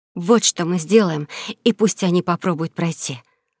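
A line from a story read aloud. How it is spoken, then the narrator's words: Gloating whisper. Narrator (Russian): злорадно прошептала Элли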